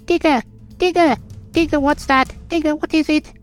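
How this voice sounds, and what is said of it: Silly character voice. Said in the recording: “That's a stupid voice.”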